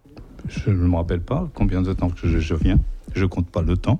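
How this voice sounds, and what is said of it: Slight Portuguese accent in French. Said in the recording (French): “tu as un petit accent lié à ton origine portugaise”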